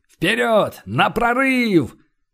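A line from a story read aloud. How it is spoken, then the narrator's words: Group roaring battle cry. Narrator (Russian): Остатки батальона взревели боевой клич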